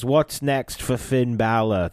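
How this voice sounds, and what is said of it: Bad, mixed British accent imitation. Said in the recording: “That was terrible ... that was awful. That was so bad ... like most Americans trying to do a British accent ... mixing 10 different dialects into one sentence”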